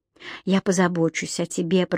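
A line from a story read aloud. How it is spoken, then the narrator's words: Whisper. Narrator (Russian): прошептал он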